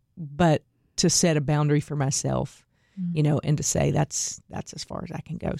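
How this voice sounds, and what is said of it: Teary, emotional voice. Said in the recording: “I'm getting teary ... it's deep feeling”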